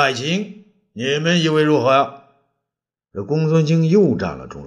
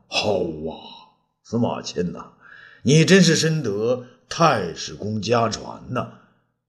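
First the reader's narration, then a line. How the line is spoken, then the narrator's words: Said with a sigh. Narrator (Chinese): 武帝也是频频点头啊，叹道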